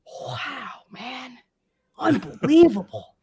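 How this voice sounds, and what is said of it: Imitates another person's voice. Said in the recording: “It's a terrible impression ... That's more of a Luke Wilson than an Owen Wilson.”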